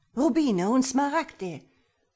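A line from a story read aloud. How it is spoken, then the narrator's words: Called out. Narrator (German): rief der Latino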